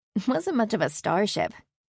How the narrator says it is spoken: Carrie said with a soft laugh

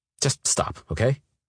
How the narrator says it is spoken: I snapped

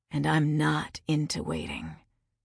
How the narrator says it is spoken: he murmured, his lips against my throat

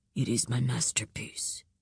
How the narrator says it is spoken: he said quietly

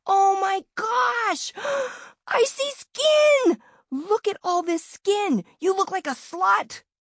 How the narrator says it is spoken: screeched

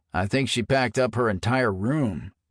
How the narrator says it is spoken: Paul groaned with a rueful shake of his head

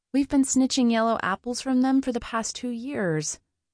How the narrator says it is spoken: Cypress sighed

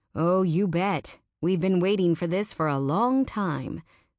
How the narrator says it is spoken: said Sammy Springer

